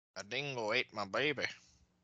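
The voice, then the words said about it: Put-on Australian accent. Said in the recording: “his Australian accent”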